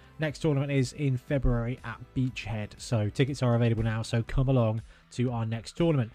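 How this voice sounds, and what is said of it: Hoarse, rough-throated voice. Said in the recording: “I've got a bit of a hoarseness to my throat after our last tournament at the weekend ... I'm a bit hoarse of the throat”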